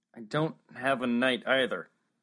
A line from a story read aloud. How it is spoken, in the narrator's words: Max said miserably